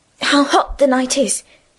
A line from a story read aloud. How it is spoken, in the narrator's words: said, and sighed